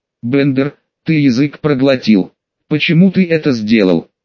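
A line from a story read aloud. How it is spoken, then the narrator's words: Through gritted teeth. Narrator (Russian): Сквозь зубы поинтересовался командор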